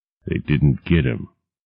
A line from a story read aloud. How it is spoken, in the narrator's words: he muttered in his heavy bass voice